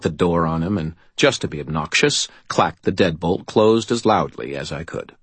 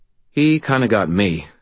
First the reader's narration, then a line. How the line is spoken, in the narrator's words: I replied